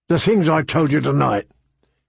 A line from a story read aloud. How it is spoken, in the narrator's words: he said, his voice sounding even rougher than usual